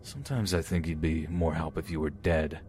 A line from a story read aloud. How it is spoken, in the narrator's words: mumble